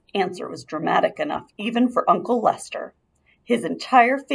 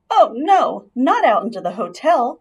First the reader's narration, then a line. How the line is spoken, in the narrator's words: cried Ralph's mother